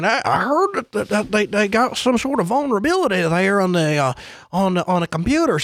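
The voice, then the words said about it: Old grandpa voice. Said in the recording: “that was a good impression... that was a good impression of Grandpa”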